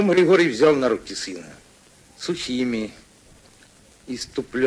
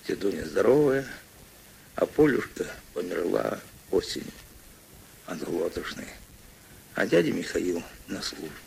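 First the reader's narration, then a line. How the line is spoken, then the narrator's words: Quiet child's answer. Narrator (Russian): Мишатка тихо ответил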